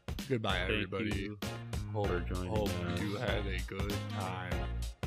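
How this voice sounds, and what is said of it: Super monotone flat voice. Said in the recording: “say bye in, like, a super monotone voice”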